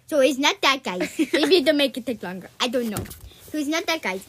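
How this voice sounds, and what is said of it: Puss in Boots character accent. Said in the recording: “I'm talking in a Puss in Boots accent ... I don't know what this accent is”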